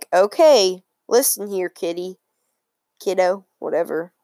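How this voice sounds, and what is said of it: Stern teacher character voice. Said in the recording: “Do you like my teacher voice?”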